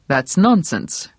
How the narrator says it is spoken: Brown said curtly

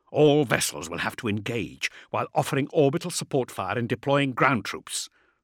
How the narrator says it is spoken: Thane growled with some annoyance

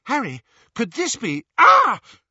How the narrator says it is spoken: Hermione screamed in pain

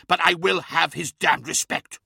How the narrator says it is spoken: snapped Magnus

